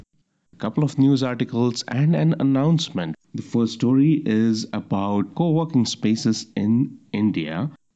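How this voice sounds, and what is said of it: Slightly hoarse voice. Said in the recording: “my voice is a little bit hoarse.”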